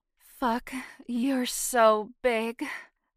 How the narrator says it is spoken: groaned

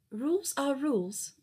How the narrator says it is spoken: she said in her prissiest voice

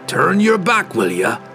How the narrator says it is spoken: Brunner grunted at the pirate captain as the dwarf dropped heavily into the rowboat

